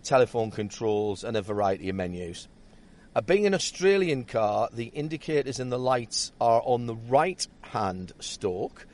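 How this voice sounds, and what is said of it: Northeastern English accent. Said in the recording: “my northeastern accent”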